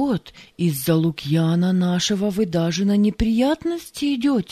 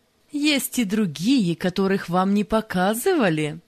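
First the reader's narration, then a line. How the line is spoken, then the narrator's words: Laughing. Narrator (Russian): засмеялся Валериан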